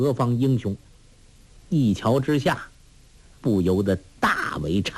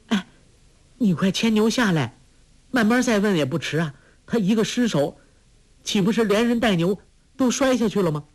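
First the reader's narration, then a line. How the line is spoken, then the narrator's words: Calling out. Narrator (Chinese): 黄蓉 叫道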